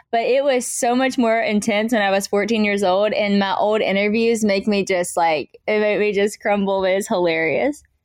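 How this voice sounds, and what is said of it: American country accent. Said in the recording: “I still have a country accent. The country accent will never go away.”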